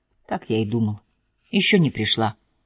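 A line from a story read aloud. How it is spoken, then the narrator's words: Muttering. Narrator (Russian): пробормотав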